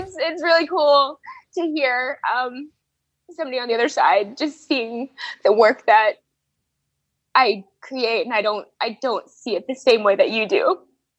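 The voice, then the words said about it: Emotional, choked-up voice. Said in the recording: “I'm like getting a little emotional ... take a little breather here and have like a mini panic attack”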